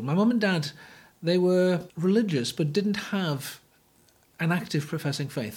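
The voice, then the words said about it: Northeast English accent. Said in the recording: “I grew up in the northeast, as you might tell by my accent.”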